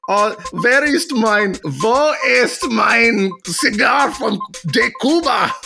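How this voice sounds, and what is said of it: Put-on German accent. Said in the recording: “I'll just go with German or something.”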